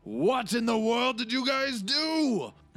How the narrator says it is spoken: I yell out

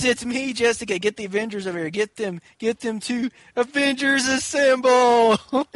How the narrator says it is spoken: she's screaming into the cell phone

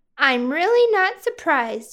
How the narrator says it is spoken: she said

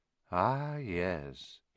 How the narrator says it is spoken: he said softly

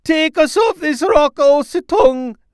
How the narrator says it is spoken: they cried out

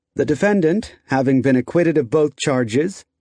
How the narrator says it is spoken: Ito said evenly

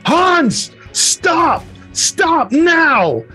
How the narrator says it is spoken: she yells to Hans

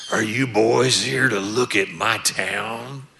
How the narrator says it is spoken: in a gruff voice, he goes

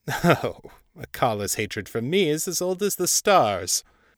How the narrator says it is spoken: Ball chuckled

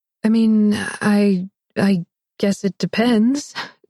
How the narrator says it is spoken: Cameron breathed

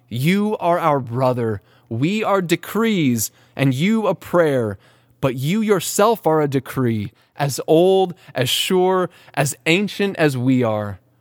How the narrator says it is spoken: they will all shout to your prayer and cry

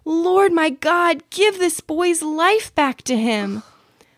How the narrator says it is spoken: He cried out to the Lord

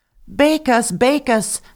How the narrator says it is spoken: the bread cried out to her

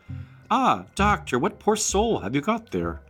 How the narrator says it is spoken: one of the townspeople, who, having been properly drilled by Stevenson, cried out

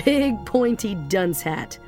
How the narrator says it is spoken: Rando said, laughing

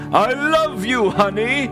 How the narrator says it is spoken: Santa groveled, cried, and pleaded

